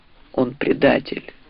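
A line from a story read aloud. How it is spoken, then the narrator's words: Muffled repeating knight. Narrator (Russian): глухо повторил рыцарь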